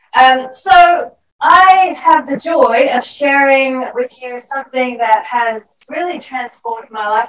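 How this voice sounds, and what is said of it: Australian accent. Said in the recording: “I worked really hard to keep my Australian accent ... Sorry, it wasn't a Kiwi accent, but close enough.”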